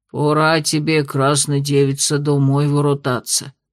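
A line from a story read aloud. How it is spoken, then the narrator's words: Muttered. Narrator (Russian): буркнул Брауни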